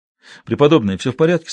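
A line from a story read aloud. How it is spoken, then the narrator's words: Plain. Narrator (Russian): спросил Мел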